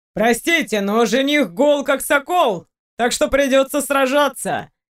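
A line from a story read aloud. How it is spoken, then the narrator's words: Cheerful reply. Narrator (Russian): весело ответил я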